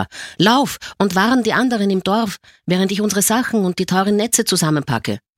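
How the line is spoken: Old man shouting. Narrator (German): schrie der Alte

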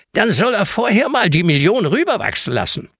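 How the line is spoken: Croaking voice. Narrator (German): krächzt Heinz

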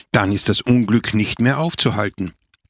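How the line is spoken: Old man groaning. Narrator (German): stöhnte der alte Bischof

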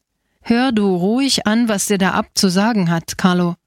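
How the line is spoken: Plain. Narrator (German): sagte er

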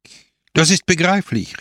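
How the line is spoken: Exclaimed. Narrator (German): rief aus

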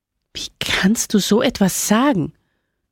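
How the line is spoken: Woman groaning. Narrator (German): stöhnte die Frau

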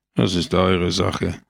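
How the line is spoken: Murmur. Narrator (German): murmelte Pepone

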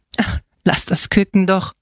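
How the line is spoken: Grunting. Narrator (German): grunzte Ernesto

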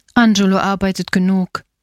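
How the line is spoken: Plain. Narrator (German): sagte die Bäuerin

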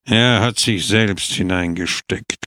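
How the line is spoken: Growling. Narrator (German): knurrte er

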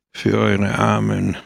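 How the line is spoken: Murmuring. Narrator (German): murmelte Pepone

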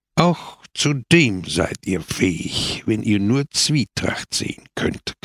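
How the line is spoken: Growling. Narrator (German): knurrte Peppone

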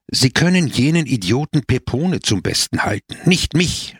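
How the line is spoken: Angry exclamation. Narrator (German): rief zornig aus

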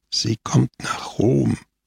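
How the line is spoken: Quietly continuing. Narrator (German): fuhr Scamoggia leise fort

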